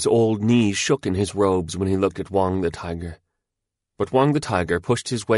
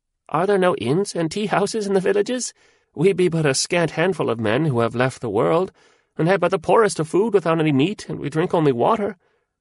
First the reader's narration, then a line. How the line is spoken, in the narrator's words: he answered in a little piping voice